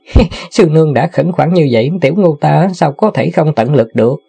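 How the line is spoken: Laughing. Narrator (Vietnamese): Tiểu Ngu bật cười nói

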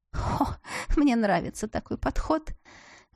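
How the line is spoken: Relaxed laughter. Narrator (Russian): рассмеялась я, расслабляясь

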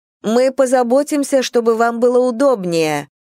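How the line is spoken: Shouting. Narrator (Russian): крикнула Эллинор старухе

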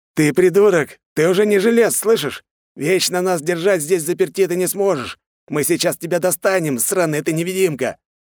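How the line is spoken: Madman yelling through loudspeaker. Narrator (Russian): орал какой-то псих в громкоговоритель

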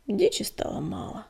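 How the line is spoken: Weary reminder. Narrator (Russian): устало напомнил Огнегриф

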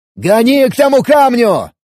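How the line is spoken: Yelling over a storm. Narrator (Russian): заорал я, пытаясь перекричать шум бури и грохот грома

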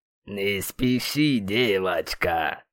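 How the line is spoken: Pleased bass drawl. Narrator (Russian): довольно протянул своим басом Камиль

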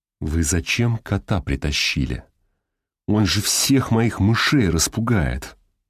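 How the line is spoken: Through gritted teeth. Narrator (Russian): процедил сквозь зубы Зубов

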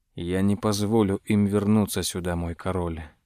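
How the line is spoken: Mutter. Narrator (Russian): пробормотал граф

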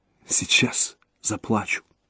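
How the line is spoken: Whisper. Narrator (Russian): прошептала Рейка

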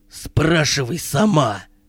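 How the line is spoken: Insulting tone. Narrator (Russian): ответил Керик в такой оскорбительной манере

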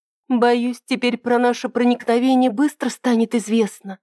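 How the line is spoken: Anxious whisper. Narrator (Russian): взволнованно прошептала Ида

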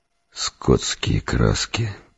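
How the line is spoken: Muttered. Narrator (Russian): пробормотал я

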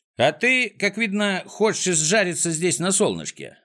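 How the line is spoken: Plain. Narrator (Russian): ответил Незнайка

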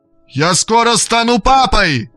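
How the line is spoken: Shouted at full voice. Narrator (Russian): крикнул он во весь голос

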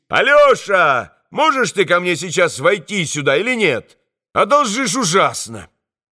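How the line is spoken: Shouting down from window. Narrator (Russian): сам брат Иван закричал ему из окна вниз

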